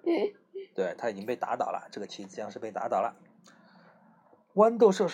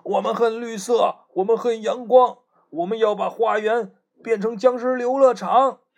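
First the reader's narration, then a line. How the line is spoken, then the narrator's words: Yelling while charging. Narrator (Chinese): 路障僵尸 和僵尸和梯子僵尸一边冲一边叫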